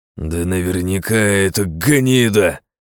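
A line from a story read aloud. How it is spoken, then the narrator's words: Growl. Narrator (Russian): зарычал борзой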